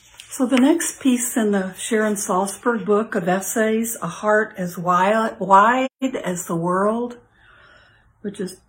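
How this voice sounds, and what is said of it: Slightly hoarse voice. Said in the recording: “I'm a little hoarse today ... Still dealing with allergies”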